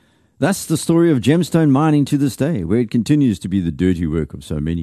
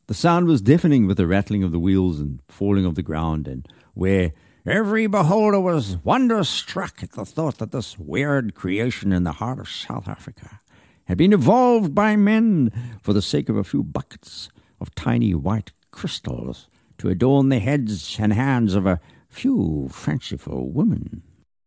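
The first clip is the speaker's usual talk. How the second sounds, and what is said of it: Bad put-on American accent. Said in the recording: “Forgive the terrible American accent.”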